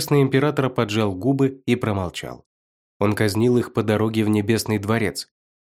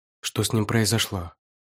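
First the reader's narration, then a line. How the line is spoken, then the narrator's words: Quiet. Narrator (Russian): сказал негромко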